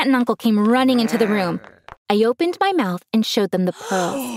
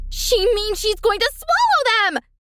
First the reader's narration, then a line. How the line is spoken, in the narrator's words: Cecilia screamed